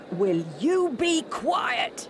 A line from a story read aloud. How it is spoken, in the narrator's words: a rough voice shout at the blind man